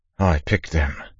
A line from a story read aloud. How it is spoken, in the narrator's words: Lorien said, his voice quavering